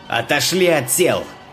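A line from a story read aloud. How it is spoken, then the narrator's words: Loud command. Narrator (Russian): Громко приказал старший полицейский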